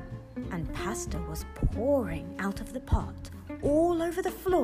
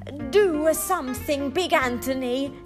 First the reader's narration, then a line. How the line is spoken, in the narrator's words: they shouted